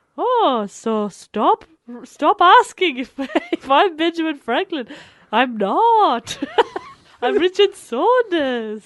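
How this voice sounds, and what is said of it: Character voice, slightly Welsh-sounding. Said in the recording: “I think you're Richard's a little Welsh. ... It is a bit Welsh.”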